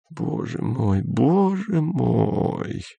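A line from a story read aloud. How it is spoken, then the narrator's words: Hoarse whisper. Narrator (Russian): хрипло прошептала Сельма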